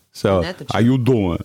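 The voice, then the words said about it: Put-on Brooklyn Italian accent. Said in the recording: “That's the Italian, Brooklyn Italian.”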